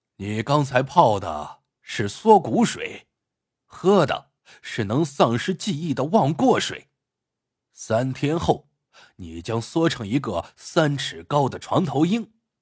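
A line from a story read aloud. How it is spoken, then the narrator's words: Cold, sneering. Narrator (Chinese): 那个黑衣人冷冷一笑，说道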